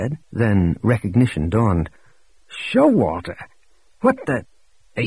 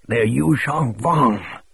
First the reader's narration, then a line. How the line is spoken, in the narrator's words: Showalter rasped